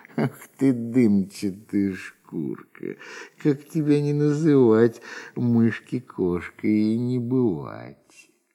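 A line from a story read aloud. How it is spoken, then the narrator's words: Laughing cat. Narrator (Russian): Засмеялась кошка-мурка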